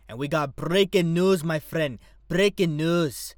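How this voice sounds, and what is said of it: Deliberately bad put-on accent. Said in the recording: “The worst fucking accent that I've ever did in a show”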